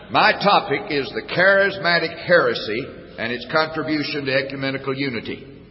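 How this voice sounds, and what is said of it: Southern US accent. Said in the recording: “speak Southern”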